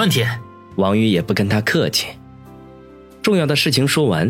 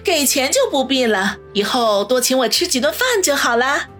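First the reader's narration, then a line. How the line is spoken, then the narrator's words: Laughing. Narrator (Chinese): 楚淼笑道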